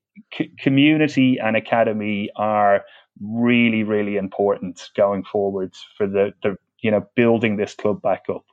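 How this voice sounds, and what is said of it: Dublin Irish accent. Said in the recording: “Is that a Dublin accent then I detect there? ... I grew up in Dublin”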